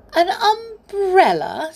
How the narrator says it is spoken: said Amelia Jane with a giggle

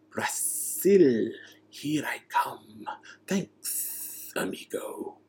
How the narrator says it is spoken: a low, hissing voice said

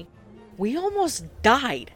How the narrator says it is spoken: I cried out

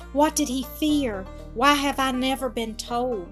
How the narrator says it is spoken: whispered the girl with a shudder

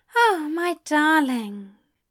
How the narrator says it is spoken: Aziraphale sighed

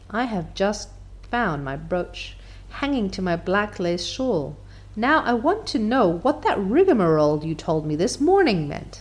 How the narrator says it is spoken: said Marilla solemnly

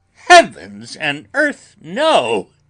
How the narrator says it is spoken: cried Arthur, in a storm of passion

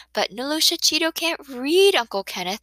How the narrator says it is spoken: Cindy chirped

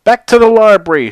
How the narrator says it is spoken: shouted Clancy the Croc

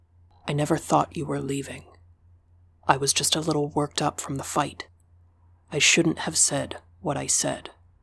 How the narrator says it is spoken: whispered in my ear

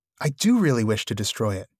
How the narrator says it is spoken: cried Frodo

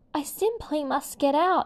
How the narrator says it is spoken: she gasped

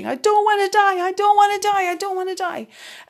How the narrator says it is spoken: She was shouting

